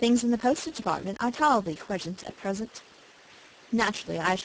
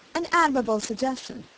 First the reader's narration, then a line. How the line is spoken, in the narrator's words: said Smith